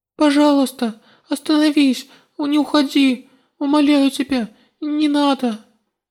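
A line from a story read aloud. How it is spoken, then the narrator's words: Whimpering, breaking down. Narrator (Russian): Не в силах больше сдерживаться, я захныкала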